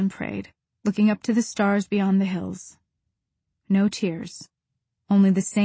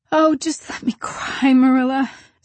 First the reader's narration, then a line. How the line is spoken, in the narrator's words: sobbed Anne